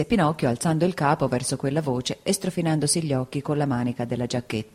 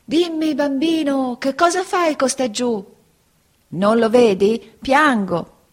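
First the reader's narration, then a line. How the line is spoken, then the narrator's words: Dove shouting from above. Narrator (Italian): un grosso colombo gli gridò da una grande altezza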